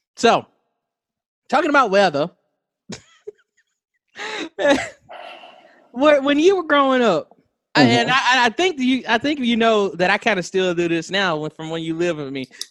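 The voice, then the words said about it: Southern American accent. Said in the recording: “You can hear it in my voice. You can hear it in my voice today, especially, because I'm not intentionally trying to sound southern, ... talking about weather makes me a little southern”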